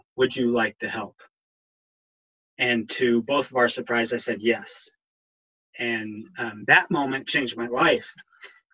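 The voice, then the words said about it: Emotional, choked-up voice. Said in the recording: “I don't know why I'm getting emotional right now.”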